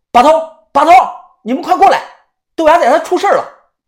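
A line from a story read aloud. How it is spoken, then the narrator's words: Urgent shout. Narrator (Chinese): 我立即大喊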